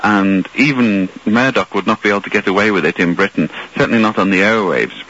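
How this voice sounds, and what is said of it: British accent. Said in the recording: “as you can tell from my accent, I originally come from Britain”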